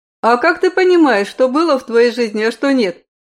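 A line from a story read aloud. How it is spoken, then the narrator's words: Amused skeptical snort. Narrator (Russian): хмыкнул Айвол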